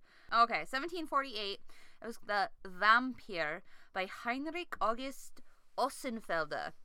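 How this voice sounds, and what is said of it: Put-on German accent. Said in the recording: “Like my German accent there?”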